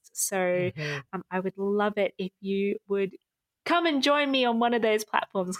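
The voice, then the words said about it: Soothing, calm speaking voice. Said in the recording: “you have a very soothing podcast voice ... great for the ears”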